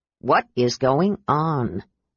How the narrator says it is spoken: Derek asked in a low voice

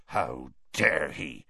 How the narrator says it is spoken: Hagrid growled

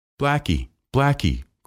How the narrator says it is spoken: cried Alyosha

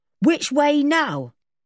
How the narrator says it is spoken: He called out to whoever was behind and said

